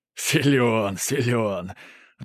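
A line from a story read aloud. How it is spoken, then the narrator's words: Loud laughter. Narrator (Russian): расхохотался Велесов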